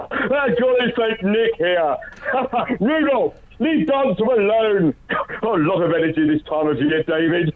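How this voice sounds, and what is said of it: Booming Father Christmas impression. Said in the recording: “this impression is quite booming and it has made children cry ... Give us your best Father Christmas”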